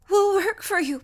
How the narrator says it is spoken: pleaded Natsu

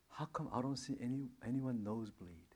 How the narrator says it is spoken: he was just saying it so calmly

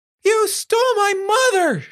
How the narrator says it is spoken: screamed

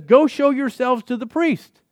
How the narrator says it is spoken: Jesus hollers back at these lepers and says

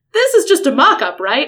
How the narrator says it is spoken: I said loudly

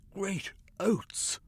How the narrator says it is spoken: Cornucope gasped

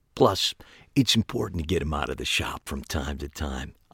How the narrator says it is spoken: added quietly

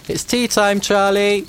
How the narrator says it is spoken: shouted

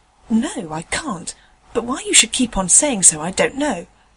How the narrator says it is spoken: rather crossly

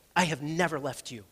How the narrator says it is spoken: our Father ... his gentle whisper

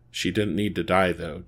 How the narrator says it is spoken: Jason growled at the figure

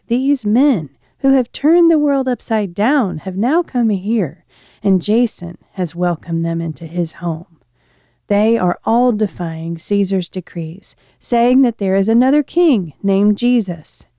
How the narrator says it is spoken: shouting

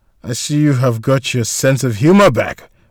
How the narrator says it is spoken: Valter responded with a chuckle

